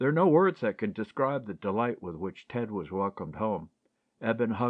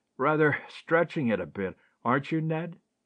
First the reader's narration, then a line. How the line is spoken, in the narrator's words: laughed Ted